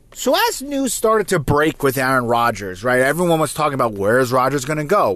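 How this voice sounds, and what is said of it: New Jersey accent. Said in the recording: “if you can't tell from my accent, I am from New Jersey”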